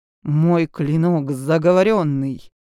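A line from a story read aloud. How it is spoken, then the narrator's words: Through gritted teeth. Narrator (Russian): процедил наемник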